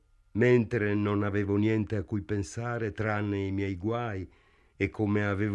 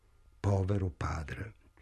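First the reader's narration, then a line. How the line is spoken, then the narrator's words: Sighing. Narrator (Italian): sospirò Morris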